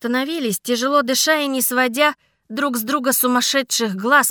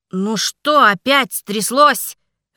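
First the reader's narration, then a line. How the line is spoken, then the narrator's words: Growled. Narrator (Russian): рыкнул мой дракон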